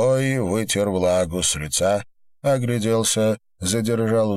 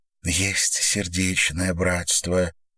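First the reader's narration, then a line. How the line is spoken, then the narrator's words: Quiet. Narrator (Russian): тихо произнесла Ар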